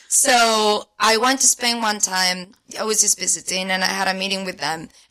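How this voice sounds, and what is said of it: Spanish accent. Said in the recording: “I'm from Spain... I'm not pretending this accent. It's all real... a real spicy Spaniard”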